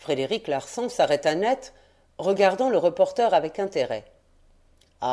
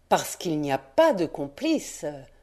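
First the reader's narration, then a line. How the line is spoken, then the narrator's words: Breathy whisper. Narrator (French): souffla Rouletabille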